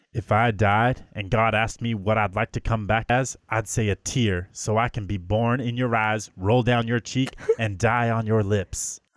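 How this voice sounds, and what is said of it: Put-on Midwestern twang. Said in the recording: “I loved your accent... you put a little twang... in there... like a little, like a Midwestern guy... Texas Chainsaw Massacre type.”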